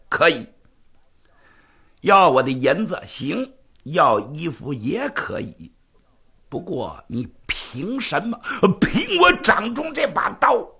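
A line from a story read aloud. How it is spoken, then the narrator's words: Smiling. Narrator (Chinese): 南侠一笑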